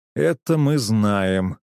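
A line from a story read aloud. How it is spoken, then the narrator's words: Drawling. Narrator (Russian): протянул я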